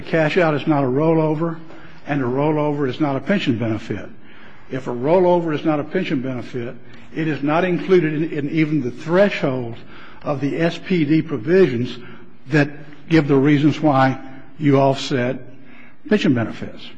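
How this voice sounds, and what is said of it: Slight Southern US accent. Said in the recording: “from the South somewhere? ... Louisiana. ... a little bit of a Southern accent”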